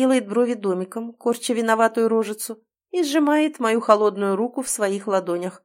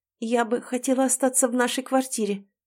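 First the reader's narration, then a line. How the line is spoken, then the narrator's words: Trembling voice. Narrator (Russian): дрожащим голосом заявляю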